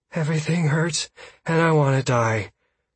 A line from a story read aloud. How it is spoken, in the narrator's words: Caius gasped as sweat continued to pour down his face